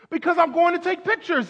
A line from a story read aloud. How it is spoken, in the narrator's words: cried the photographer